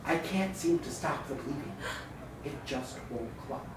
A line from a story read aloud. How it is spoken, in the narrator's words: my doctor whisper to the nurse